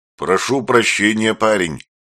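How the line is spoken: Booming rumble. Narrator (Russian): прогудел водитель

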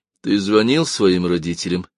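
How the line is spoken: Lifeless, flat voice. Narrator (Russian): спросила Лиз безжизненным голосом

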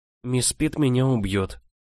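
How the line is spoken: Sad summing up. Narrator (Russian): резюмировала я грустно

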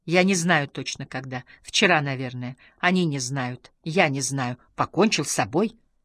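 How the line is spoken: Nearly growling. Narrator (Russian): Хёль Мундель почти рычал

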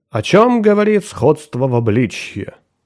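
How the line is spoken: Loud musing. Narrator (Russian): громко рассуждал он

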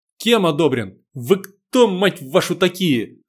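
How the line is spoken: Angry cursing. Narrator (Russian): зло выругался я

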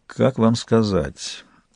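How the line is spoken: Quiet, confiding. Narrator (Russian): Произнес он тихо, доверительно

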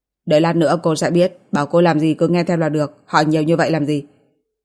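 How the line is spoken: Cold, indifferent. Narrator (Vietnamese): lạnh lùng, không mặn không nhạt nói

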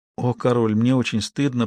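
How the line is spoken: Whisper. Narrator (Russian): прошептал Робин

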